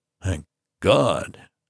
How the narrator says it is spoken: him mutter

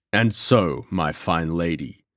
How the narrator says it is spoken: said John Gower, in his deep, menacing voice

